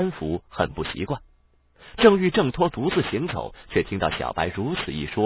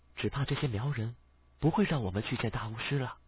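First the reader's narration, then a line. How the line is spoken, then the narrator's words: Low voice. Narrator (Chinese): 小白低声道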